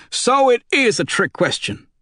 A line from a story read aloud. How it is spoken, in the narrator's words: said sharply